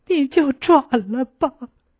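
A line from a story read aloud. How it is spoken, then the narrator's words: Pitiful, crying. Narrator (Chinese): 他可怜巴巴地，一边哭一边和我说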